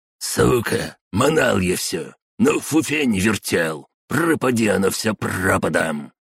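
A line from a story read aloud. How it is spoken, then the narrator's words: Old man's bold hiss. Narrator (Russian): шипел старый майор с молодецкой удалью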